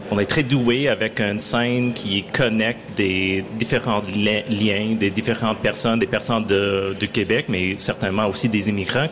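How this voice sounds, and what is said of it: Anglophone American accent in French. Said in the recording (French): “mon accent anglophone, je viens des États-Unis”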